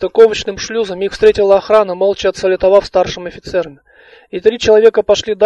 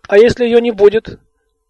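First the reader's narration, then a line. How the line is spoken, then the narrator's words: Exclamation. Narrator (Russian): воскликнула Алиса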